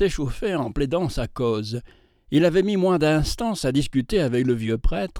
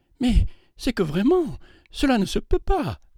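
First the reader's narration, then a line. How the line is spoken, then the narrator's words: Alarmed voice. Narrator (French): dit-elle d'une voix effarée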